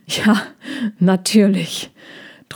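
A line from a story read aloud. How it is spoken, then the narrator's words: With a little laugh. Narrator (German): Trojan lachte ein bisschen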